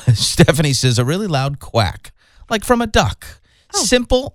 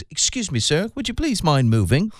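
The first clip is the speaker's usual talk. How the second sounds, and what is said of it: Put-on British accent. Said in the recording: “a British accent”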